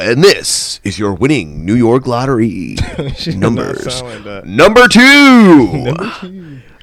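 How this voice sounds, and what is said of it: Impression of Yolanda Vega's lottery announcer voice. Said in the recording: “Yolanda Vega ... sounded just like this”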